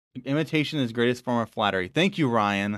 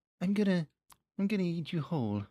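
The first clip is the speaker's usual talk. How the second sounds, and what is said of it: Winnie the Pooh voice impression. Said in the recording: “terrible Winnie the Pooh impression? ... No, it was a little better. ... No, it's not bad, man. ... That's pretty good.”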